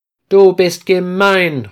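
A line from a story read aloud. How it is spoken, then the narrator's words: Calling out. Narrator (German): ruft Peter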